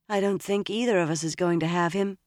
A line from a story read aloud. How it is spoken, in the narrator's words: Egwene said sadly